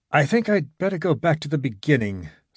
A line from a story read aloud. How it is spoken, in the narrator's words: said, shifting uneasily